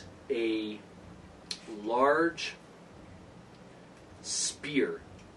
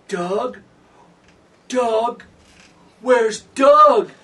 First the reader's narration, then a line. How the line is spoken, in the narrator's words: The female edition of the Verbeek screams